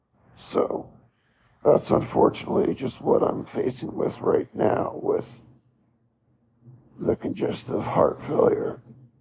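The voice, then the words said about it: Voice sounds sick and unwell. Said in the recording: “I sound terrible”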